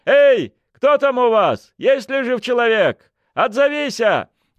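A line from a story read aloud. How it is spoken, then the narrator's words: Booming shout. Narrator (Russian): зычным голосом закричала Проня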